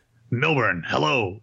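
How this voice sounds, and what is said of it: Imitates another person's voice. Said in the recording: “my Larry King impression”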